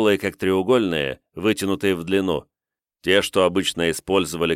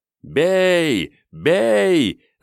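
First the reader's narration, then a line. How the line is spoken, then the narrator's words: Joyful crowd shouting. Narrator (Russian): радостно кричали литовцы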